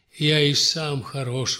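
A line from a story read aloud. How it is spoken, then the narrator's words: Sigh. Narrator (Russian): вздохнул князь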